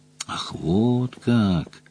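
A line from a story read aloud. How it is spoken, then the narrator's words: Drawled. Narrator (Russian): протянул Джон Том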